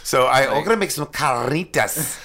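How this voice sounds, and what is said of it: Exaggerated rolled-R Spanish pronunciation. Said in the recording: “You're always going to say it like that, aren't you? ... I think it's stupid when white people roll their R's out of nowhere ... So I say it ironically”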